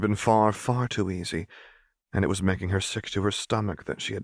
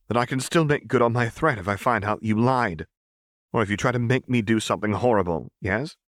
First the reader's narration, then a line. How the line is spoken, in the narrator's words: Seraphine echoed tightly